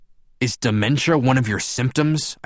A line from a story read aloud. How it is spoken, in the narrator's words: I snapped